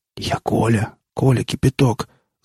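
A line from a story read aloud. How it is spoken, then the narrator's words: Whispering. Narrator (Russian): зашептал сосед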